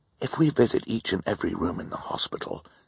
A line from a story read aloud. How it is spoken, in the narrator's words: Klaus whispered to his sister